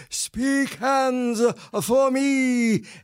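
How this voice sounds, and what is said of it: Imitation of John Gielgud's voice. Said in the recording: “in my best Gielgud voice”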